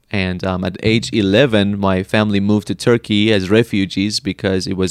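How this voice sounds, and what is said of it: Slight foreign accent. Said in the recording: “there's a little bit of an accent in you ... the accent is because I was originally born in Iran”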